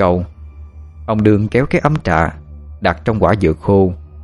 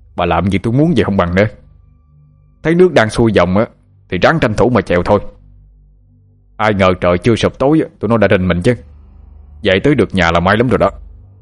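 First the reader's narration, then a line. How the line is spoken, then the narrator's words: Irritable reply. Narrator (Vietnamese): gắt gỏng đáp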